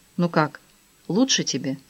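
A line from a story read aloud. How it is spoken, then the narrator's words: Gentle question. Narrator (Russian): Кароль мягко спросила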